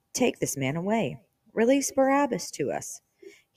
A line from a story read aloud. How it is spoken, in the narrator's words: Then they all cried out together